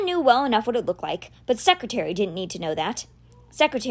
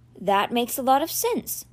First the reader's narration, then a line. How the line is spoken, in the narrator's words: she said evenly